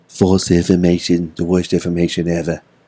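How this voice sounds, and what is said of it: Poor imitation of another person's voice. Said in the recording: “That's a horrible Trump impersonation. ... Yeah, you need to practice on that.”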